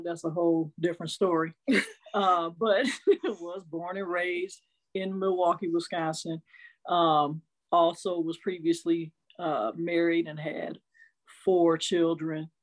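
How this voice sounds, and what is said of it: Arkansas Southern accent. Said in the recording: “I have an Arkansas accent.”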